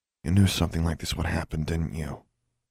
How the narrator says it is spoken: Alexandra asked quietly

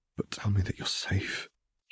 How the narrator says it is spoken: he whispered, pleaded

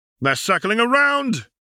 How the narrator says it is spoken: Yaxley shouted from his position

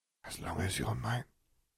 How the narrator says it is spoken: she whispered

